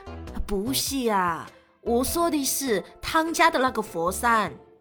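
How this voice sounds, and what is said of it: Clumsy imitated Cantonese accent. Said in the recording (Chinese): “给广东人民道个歉，我真的不会说这个语，硬硬学的。我是想学那个那个综艺里啊，那个小鸡啊，那个口音，但是学的有点四不像了”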